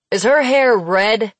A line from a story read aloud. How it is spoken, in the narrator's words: He called out